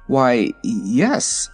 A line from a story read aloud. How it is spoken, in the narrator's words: stammered the wizard